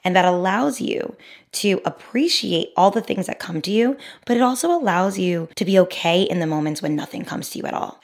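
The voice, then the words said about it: Raspy, sick-sounding voice. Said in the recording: “my raspy voice. I know I'm sick.”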